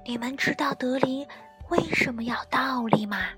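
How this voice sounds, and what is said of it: Soft whispering voice. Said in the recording (Chinese): “小声议论起来”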